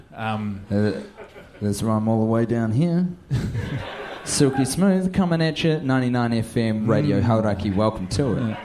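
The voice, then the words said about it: Smooth radio DJ voice. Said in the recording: “his voice sounds so good ... Feels like I'm pouring honey in your ears”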